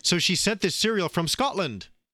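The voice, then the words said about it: Put-on Scottish accent. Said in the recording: “is that your Scottish accent?”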